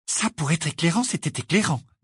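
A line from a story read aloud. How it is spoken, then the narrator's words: Low voice. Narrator (French): dit Hermione à voix basse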